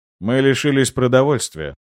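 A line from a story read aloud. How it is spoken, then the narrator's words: Indifferent voice. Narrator (Russian): равнодушным голосом произнес лорд Грей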